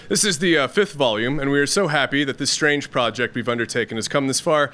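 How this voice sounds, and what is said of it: Congested voice with a cold. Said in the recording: “As you might be able to hear, I've got a little bit of a cold”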